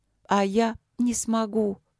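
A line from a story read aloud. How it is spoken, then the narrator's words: Sad. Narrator (Russian): грустно проговорила Алина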